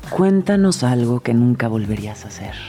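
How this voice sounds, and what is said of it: Late-night radio announcer voice. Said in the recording (Spanish): “con voz de locutora ... locutora además como de medianoche ... locutora de medianoche ... hotline ... me gustas como locutora”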